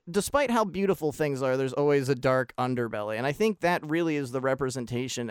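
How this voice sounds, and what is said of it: Usual voice. Nothing is said of it.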